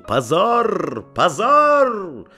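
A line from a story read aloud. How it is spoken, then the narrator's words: Crowd yelling. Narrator (Russian): большинство зрителей орало ему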